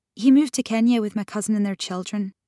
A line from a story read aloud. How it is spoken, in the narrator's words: Grace said quickly